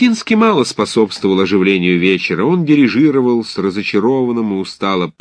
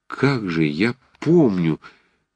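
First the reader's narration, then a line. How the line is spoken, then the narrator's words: Uncertain mumble. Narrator (Russian): неуверенно забормотал Ромашов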